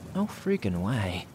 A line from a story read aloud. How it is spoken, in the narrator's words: I whispered